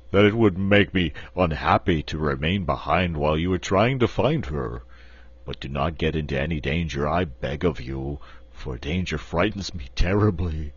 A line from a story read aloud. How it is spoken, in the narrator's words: said the Cowardly Lion in his deep, rumbling voice